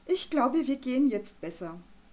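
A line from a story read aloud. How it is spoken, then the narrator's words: Sighing. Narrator (German): Arabella Vogel seufzte und wollte gerade sagen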